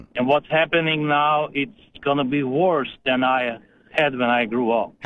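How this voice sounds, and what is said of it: Eastern European accent. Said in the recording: “Probably you hear from my accent, I'm from Eastern Europe”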